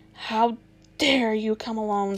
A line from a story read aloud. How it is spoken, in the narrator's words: said the witch in a terrible voice